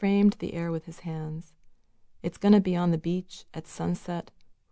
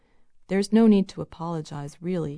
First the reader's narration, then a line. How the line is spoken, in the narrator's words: he said, and his voice was even, mellow, too smooth